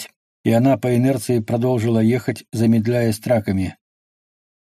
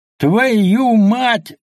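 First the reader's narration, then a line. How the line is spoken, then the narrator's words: Two dogs yelling together. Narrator (Russian): завопили оба пса одновременно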